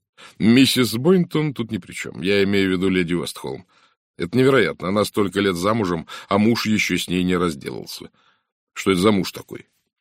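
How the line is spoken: Laughing. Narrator (Russian): Сара рассмеялась

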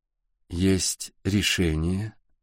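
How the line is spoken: Slow. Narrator (Russian): медленно сказала Сашка

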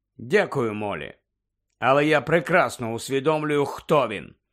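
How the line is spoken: Cold curt retort. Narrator (Ukrainian): Холодно відрізав Сіріус

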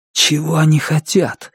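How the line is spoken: Agitated whisper. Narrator (Russian): взволнованно прошептал Звон

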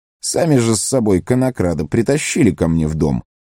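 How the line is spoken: Stern scolding. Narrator (Russian): грозно выговаривал южанам Маслютик

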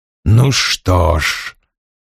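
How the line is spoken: Oily, restrained voice. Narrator (Russian): масляным голосом произнес Вульф, стараясь держать себя в руках

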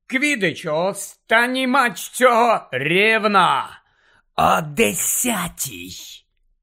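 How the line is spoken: Hissed. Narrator (Ukrainian): Прошипів Снейп

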